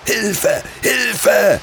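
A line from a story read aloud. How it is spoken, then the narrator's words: Screamed. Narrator (German): schrie Martin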